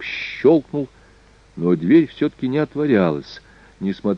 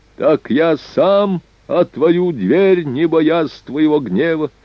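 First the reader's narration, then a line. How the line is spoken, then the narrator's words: Old man shouting. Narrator (Russian): закричал старик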